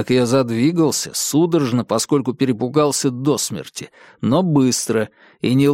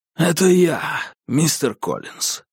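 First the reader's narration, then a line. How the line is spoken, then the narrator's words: Hoarse rasp. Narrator (Russian): прохрипел он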